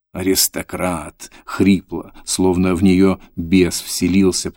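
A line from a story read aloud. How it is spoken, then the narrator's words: Growled. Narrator (Russian): прорычала Таня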